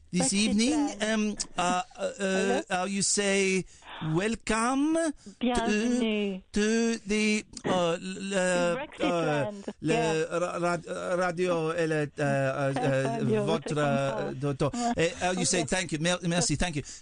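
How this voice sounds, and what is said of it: Mock French accent. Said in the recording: “Are you speaking French?”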